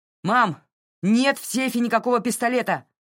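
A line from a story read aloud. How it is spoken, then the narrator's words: Distant shout. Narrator (Russian): крикнул из коридора Джей Ар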